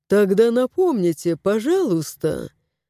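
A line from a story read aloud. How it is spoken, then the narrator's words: Silky, ingratiating. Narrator (Russian): вкрадчиво произнес он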